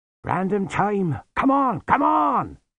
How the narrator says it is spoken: shouted Lutzer

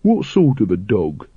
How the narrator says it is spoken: he said

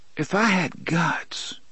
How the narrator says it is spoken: she murmured

